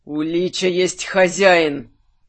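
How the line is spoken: Angry exhale. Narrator (Russian): Зло выдохнул Минош

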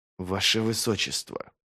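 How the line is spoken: Hiss. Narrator (Russian): прошипел Вест

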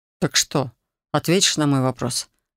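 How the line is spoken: Calm. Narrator (Russian): спокойно проговорил дракон

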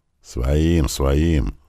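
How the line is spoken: Duke grumbling. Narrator (Russian): проворчал герцог

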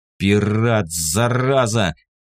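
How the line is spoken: Angry growl. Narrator (Russian): прорычал от злости

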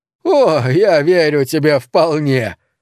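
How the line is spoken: Groaning through laughter. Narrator (Russian): простонал сквозь смех Гудерф

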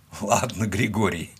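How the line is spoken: Breathless after laughing. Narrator (Russian): выдохнул он, вытерев выступившие от смеха слезы

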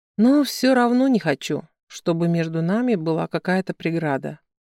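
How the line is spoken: Sigh. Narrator (Russian): вздохнул он

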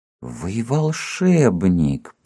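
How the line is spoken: Astonished whisper. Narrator (Russian): прошептал изумленно Цвет

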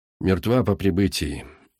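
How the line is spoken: Dry official report. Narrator (Russian): сухо доложил старший полицейский

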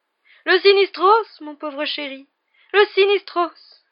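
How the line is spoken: Shocked exclamation. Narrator (French): s'écria le professeur Trelawney, qui semblait choqué que Harry n'ait pas compris

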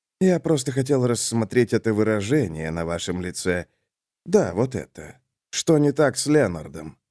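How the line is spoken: Sighing. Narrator (Russian): Хэммил вздохнул

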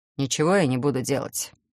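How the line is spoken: Calm announcement. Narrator (Russian): спокойно объявил

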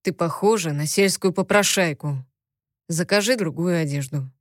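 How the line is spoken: Rough. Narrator (Russian): грубо произнес Тогра

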